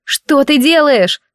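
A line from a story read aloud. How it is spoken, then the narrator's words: Shouting again. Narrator (Russian): снова закричала я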